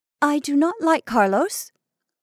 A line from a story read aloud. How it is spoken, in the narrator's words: Violet turned hotly